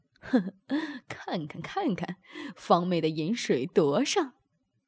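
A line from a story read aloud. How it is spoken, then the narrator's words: Laughing. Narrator (Chinese): 宋明笑着说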